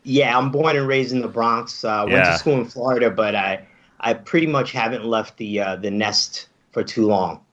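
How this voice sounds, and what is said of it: Mild New York accent. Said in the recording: “has the mild Velasquez-esque accent ... the New York-centric accent ... You're just a little bit more New York-y”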